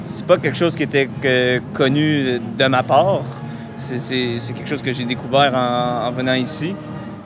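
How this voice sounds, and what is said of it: Québécois French accent. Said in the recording (French): “un artiste qui vient du Québec ... cet accent magnifique qui l'accompagne dans tous ses voyages”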